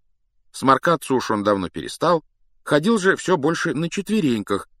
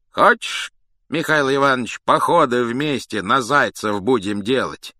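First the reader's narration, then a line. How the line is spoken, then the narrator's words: Plain. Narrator (Russian): сказал он медведю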